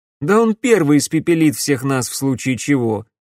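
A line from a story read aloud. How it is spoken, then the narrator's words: Short chuckle. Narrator (Russian): хохотнул Алекс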